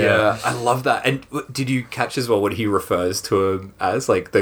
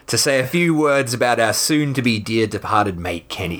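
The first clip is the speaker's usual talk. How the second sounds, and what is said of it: Exaggerated Australian accent. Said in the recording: “Do you want to go more Australian? ... you're not really Australian enough for me”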